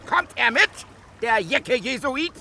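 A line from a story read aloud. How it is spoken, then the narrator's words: Shouting, laughing with delight. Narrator (German): Er schrie vor Vergnügen lachend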